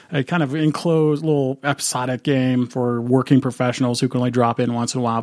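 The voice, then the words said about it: Strange, sick-sounding voice. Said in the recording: “I'm just getting over a pretty nasty bug. Um, so if my voice sounds strange”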